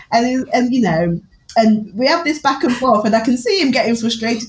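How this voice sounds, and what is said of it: English Newark accent. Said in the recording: “I speak with a very Newark accent”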